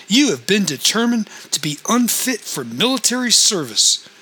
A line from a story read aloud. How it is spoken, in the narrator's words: he said sharply